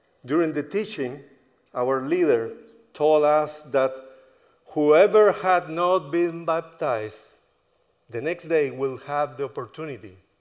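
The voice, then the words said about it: American accent. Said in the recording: “if you notice by my accent, I am no local, but I am an American.”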